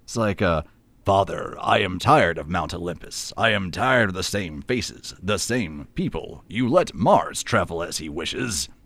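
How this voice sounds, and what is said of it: Imitates a film's dubbed voice, strange cadence. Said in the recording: “Can you do the dubbing voice? ... the dubbing voice is, it's like such a strange cadence to that ... that voice is so strange because it has to keep time with what Schwarzenegger was doing on set”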